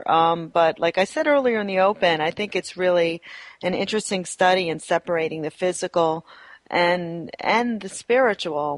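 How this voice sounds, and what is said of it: Voice slightly strained from a cold. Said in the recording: “Excuse my voice if it's sounds a little strange ... I am dealing with a little bit of a cold here”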